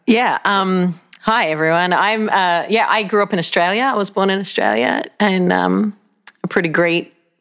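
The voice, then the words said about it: Australian accent. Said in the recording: “she has a great accent”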